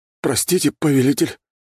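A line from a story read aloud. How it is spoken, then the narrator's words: Confused mutter. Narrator (Russian): растерянно пробормотал оборотень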